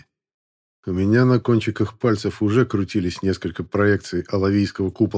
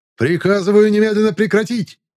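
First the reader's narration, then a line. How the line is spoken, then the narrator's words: Screaming at full voice. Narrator (Russian): завопил я во всю глотку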